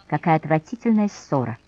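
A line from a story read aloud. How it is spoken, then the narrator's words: Sighing drawl. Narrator (Russian): со вздохом протянула Александрина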